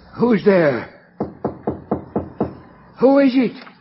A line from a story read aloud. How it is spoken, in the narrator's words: called out